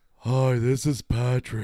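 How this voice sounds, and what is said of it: Cartoon character voice, breathless. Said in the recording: “Can you do Patrick? ... Sounds like you're out of breath.”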